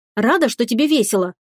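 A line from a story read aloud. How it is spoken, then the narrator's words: Hurt snapping retort. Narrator (Russian): обиженно огрызнулась девушка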